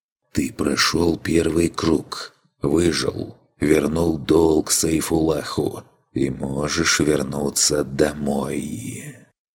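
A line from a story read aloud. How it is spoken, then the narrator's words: Quiet whisper. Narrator (Russian): прошептал тихий голос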